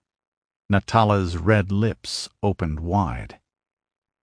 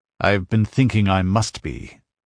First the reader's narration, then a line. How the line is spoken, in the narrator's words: he growled